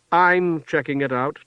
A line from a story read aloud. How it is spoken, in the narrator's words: Ty said